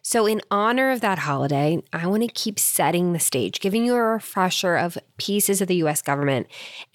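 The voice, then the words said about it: Raspy voice from a cold. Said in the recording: “Please excuse the rather raspy voice. I've come back from travel with a little bit of a cold”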